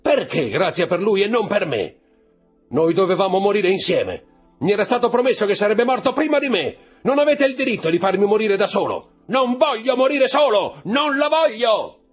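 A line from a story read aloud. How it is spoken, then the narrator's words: Screaming and roaring. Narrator (Italian): urlando, ruggendo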